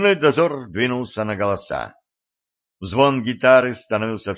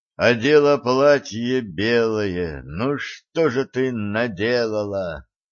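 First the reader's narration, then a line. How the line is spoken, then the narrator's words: Nasal singsong voice. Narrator (Russian): выводил чей-то гнусавый голос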